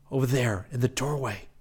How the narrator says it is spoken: Rick whispered

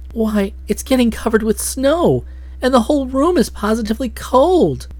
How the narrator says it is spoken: Nadia exclaimed

